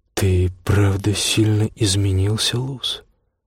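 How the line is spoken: Plain. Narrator (Russian): говорит он

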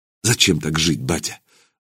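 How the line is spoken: Breathed out. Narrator (Russian): выдохнул Илья

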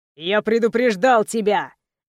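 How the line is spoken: Growling. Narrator (Russian): рычал Тайсон

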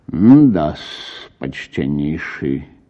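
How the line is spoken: Thoughtful muttering. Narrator (Russian): пробормотал мировой в раздумии

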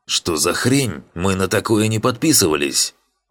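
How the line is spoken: Angry barking retort. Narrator (Russian): Озлобленный координатор, отгавкивающийся от наседавших на него воинов

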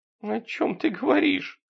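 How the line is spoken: Whimpering question. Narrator (Russian): хныкая спросила она

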